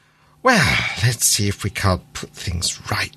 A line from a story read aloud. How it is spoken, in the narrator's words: he muttered to himself